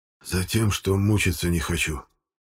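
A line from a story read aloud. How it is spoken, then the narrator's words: Barely audible, father. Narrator (Russian): еле слышно ответил отец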